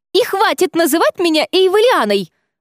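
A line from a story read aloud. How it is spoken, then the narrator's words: Shrill squeal. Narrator (Russian): взвизгнула она под конец нашего спора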